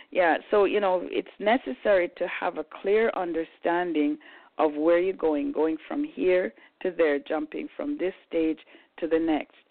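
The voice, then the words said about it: Husky, slightly hoarse voice. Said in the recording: “My voice is a little bit husky today ... I yelled my head off”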